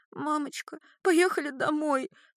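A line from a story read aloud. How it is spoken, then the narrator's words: Sobbing. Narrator (Russian): всхлипывает Вера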